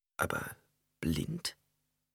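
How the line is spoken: Plain. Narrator (German): fragte Ghanima

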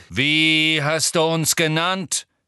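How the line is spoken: Centaur calling out. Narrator (German): rief ein wild aussehender schwarzer Zentaur, den Harry als Bane erkannte

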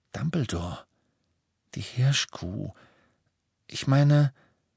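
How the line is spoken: Quiet, slightly embarrassed. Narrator (German): Ron blickte ein wenig verlegen, sagte aber mit leiser Stimme

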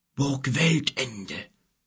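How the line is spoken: Grumbling. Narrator (German): brummte er

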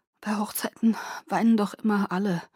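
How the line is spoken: Choked husky voice. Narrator (German): sagte mit belegter Stimme

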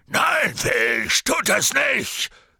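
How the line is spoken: Said gruffly. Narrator (German): sagte Hagrid barsch

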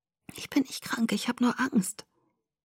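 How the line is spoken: Whispered. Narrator (German): flüsterte

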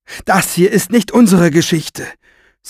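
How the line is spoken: Said very loudly. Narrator (German): sagte sie so laut, dass einige der Räuber sich zu ihr umwandten

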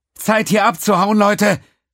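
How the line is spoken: Calling out. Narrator (German): rief Diamond

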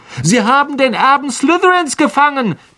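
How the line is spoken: Girl squeaking. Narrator (German): quiekte ein Mädchen am Ravenclaw-Tisch

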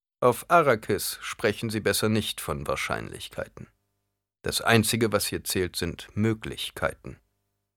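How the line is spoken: Cold reply. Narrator (German): Kalt erwiderte er

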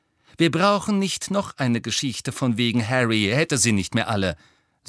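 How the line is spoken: Angry. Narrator (German): sagte Hermine zornig

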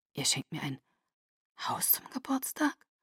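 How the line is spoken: Whisper. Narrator (German): flüsterte

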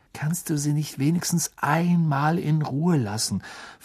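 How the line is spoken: Quiet question. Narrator (German): fragte Harry Ron mit leiser Stimme

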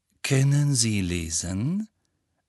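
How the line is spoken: Laughing. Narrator (German): Draco Malfoy lachte

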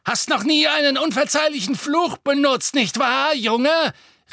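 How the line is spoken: Called out. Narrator (German): rief sie

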